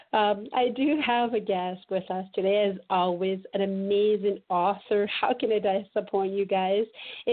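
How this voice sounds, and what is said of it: Slightly rusty voice. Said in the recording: “does ... have a little bit of a rusty voice today? Well, I've been battling a cold for a week”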